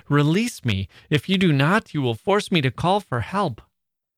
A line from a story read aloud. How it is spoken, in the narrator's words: cried I